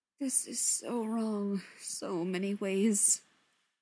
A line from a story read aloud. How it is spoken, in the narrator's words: Shepard muttered